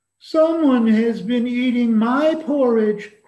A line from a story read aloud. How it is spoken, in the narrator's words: cried the wee small baby bear in his wee small voice